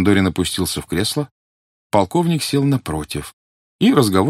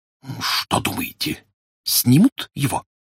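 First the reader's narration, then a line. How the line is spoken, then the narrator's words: Dreadful whisper. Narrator (Russian): понизив голос до страшного шепота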